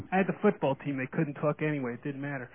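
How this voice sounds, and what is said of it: New York accent. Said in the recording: “You can still hear my accent. So I come from New York ... with this accent”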